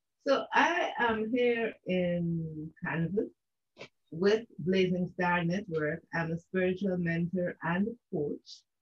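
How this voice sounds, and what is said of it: Guyanese Caribbean English accent. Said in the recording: “for those who wonder about my accent ... I am from the country of Guyana. I am a Guyanese ... part of the English-speaking Caribbean”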